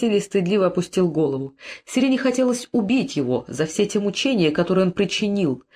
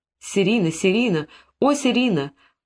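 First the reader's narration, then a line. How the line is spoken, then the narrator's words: Moaning and weeping. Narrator (Russian): Он стонал и плакал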